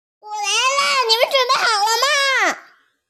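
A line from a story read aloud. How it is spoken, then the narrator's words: Shouting. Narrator (Chinese): 章鱼喊道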